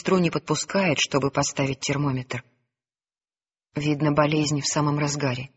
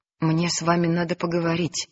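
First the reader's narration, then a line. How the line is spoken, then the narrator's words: Trembling voice, sick man. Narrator (Russian): дрожащим голосом говорит больной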